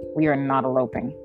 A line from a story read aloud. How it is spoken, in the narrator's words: Bellum chuckled